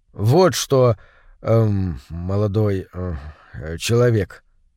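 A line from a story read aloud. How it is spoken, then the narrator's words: Hesitant opening. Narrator (Russian): неуверенно начал Пряников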